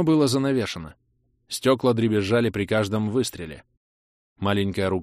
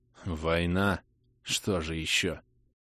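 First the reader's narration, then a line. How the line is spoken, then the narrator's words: Mumbled. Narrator (Russian): пробормотал оперативник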